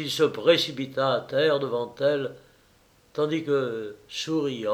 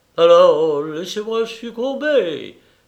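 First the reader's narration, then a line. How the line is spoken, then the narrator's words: Furious exclamation. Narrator (French): s'écria Pistian hors de lui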